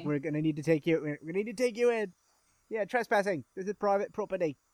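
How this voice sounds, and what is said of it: Put-on English accent. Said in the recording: “In my English accent.”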